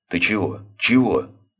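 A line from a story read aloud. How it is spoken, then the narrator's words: Slightly frightened question. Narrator (Russian): Слегка даже испуганно спросил его главарь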